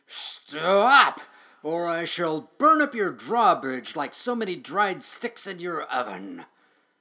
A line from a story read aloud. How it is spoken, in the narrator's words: With flames broiling from his mouth and his nostrils puffing smoke, he roared